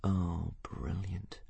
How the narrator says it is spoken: muttered Hiccup under his breath

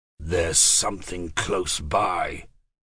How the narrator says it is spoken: Tomas said in a low voice

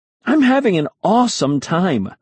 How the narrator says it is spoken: I exclaimed

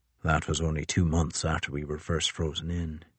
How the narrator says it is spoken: he said softly

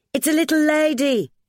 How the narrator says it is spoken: Ethel cried

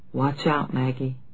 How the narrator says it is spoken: he said aloud but very softly

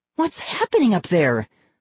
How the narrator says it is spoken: Molly cried

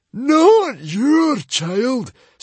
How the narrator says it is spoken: screeched the librarian

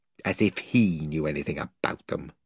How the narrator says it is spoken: muttered Edmund

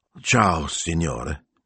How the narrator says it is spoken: he said miserably

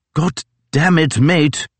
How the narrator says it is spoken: snapped Fitzjames

